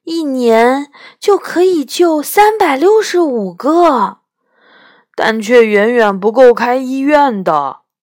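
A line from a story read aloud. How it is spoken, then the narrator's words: Admiring. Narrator (Chinese): 我赞叹道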